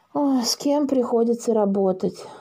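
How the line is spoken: Sighing. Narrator (Russian): вздохнул Посиделов

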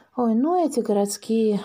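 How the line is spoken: Sighing. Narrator (Russian): вздохнул участковый

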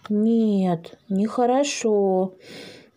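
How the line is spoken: Sighed. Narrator (Russian): вздохнул Дракоша

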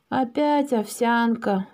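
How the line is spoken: Sigh. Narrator (Russian): вздохнул Паша

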